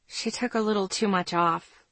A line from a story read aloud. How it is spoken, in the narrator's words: I muttered